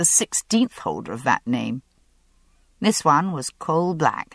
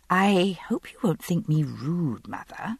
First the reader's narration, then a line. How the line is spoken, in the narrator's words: I said hesitantly